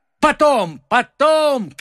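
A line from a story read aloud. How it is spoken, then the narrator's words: Shouted. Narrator (Russian): крикнул ему Д'Артаньян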